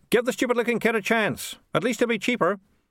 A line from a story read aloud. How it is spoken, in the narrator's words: someone at the back shouted